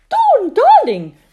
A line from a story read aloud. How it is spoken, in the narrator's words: cried Dawn's mother